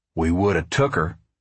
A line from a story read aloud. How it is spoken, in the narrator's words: Pa said